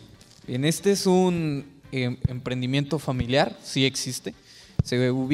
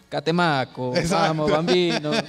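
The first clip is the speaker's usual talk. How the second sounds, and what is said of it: Put-on Italian accent. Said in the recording (Spanish): “¿Cómo se dice Catemaco en italiano? ... Pero con acento.”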